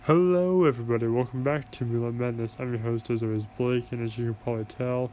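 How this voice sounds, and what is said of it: Congested, stuffy-nosed voice. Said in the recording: “I have a cold. My nose is stopped up, I have a cough, I sneeze a lot.”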